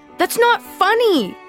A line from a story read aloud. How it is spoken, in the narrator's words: I yelled